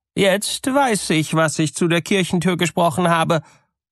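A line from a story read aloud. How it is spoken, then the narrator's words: Bride's furious cry. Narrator (German): rief die Braut und geriet in den größten Zorn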